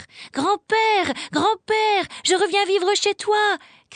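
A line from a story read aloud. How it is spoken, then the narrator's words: Shouting. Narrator (French): cria Heidi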